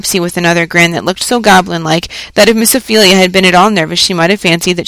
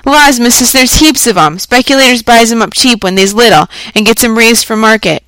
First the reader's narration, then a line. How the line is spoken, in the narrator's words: breaking into a short laugh, said